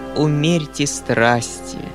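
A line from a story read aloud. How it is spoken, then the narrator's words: Solemn. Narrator (Russian): продолжал Фома тем же торжественным тоном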